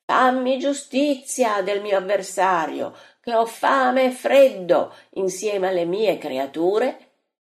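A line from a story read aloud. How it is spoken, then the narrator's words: Widow's cry. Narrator (Italian): il grido della vedova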